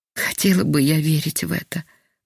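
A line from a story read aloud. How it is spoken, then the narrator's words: Sighing, sick woman. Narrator (Russian): вздохнула больная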